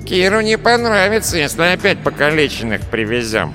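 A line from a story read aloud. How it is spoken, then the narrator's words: Nasal voice, earless man. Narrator (Russian): прогнусавил безухий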